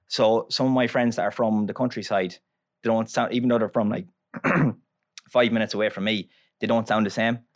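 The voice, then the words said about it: Strong Irish Longford townie accent. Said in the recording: “the country accent as well though... I have a strong accent... I have a townie accent in Longford... the townies, we kind of speak faster”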